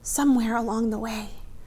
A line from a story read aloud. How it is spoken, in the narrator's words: she breathed